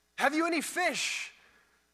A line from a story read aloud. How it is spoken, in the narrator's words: The figure called out, cupping his mouth so we could hear